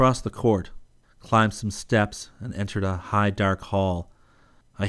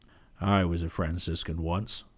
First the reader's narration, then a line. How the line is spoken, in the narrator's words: Bonaventure, he said dryly